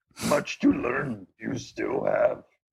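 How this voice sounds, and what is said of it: Grumbling Yoda-like Muppet voice. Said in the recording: “Now you sound like a Muppet. ... the further you go with the Yoda voice, it just has to start just coming out as like a grumble, because that just hurts the back of the throat.”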